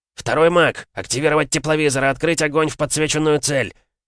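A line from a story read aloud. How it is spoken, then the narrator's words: Yelling. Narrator (Russian): заорал Адам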